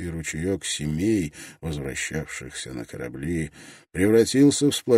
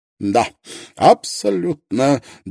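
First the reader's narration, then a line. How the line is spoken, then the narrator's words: Pleased snort. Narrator (Russian): довольно хмыкнул Лонгстаф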